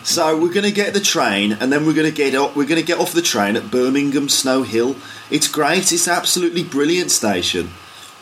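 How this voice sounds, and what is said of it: Birmingham accent. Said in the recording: “So that's your Birmingham accent.”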